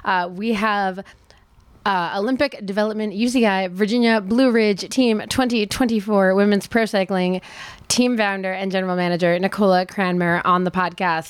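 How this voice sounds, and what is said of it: Scratchy, hoarse voice. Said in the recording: “my voice is a little scratchy this week ... just doing a lot of speaking and teaching yoga and doing nighttime talks without a microphone ... still just a little bit hoarse”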